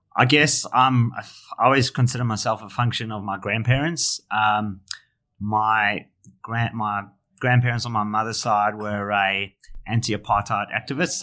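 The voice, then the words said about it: South African accent. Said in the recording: “if the accent probably gives it away, but I'm born in South Africa”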